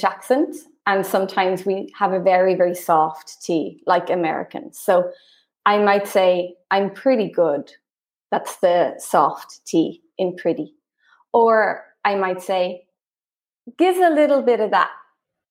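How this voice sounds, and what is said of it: Rhotic Irish accent. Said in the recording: “I have a rhotic accent, so I add that or on ... the Irish accent”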